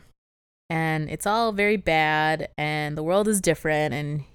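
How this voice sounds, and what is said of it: Usual voice. Nothing is said of it.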